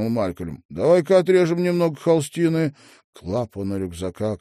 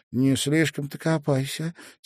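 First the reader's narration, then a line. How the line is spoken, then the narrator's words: Quiet advice. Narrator (Russian): тихо посоветовала она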